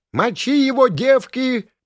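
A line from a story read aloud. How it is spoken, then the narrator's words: Menacing buzzing chorus. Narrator (Russian): прожужжало в ответ со всех сторон грозным гуловизгом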